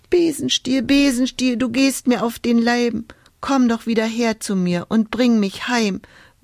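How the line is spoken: Whimpering. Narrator (German): wimmerte Hulda

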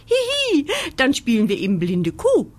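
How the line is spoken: Giggling. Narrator (German): kichert

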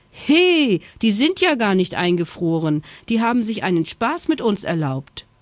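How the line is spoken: Indignant cry. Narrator (German): rief Schoko empört

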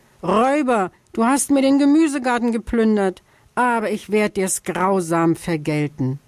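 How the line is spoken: Shouting. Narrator (German): schrie

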